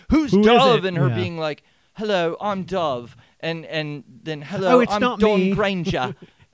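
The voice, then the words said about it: Put-on English accent. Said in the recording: “My English accent is a little bit. ... It's all just pulled from Harry Potter.”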